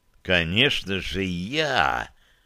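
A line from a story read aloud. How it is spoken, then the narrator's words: Hissed right in face. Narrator (Russian): прошипел я ему прямо в лицо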